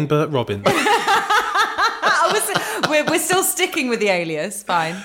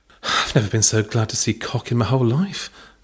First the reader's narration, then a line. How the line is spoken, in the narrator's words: Belinda breathed under her tongue